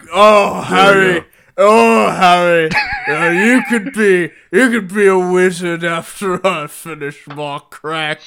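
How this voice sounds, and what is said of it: Low-pitched put-on British accent. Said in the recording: “It was a low British accent. ... A low British accent.”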